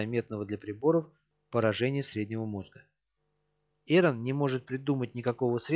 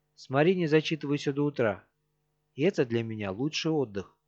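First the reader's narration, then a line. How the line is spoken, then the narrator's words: Happy tone. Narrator (Russian): отвечает счастливым тоном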